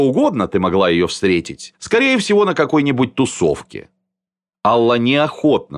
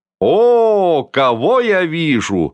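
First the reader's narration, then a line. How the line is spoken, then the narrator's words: Loud feigned joy. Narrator (Russian): воскликнула громко, с показной радостью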